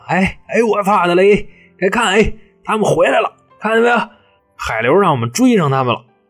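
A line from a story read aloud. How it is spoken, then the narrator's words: Shouting. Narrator (Chinese): 李成全啊，就站在船上喊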